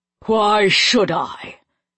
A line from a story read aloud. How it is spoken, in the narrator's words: the king said, his voice like ice